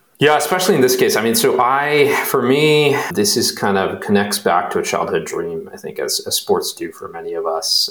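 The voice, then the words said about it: Flat Midwestern American accent. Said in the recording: “you don't really have much of an accent ... I've always kind of just like had this like flat Midwestern no accent.”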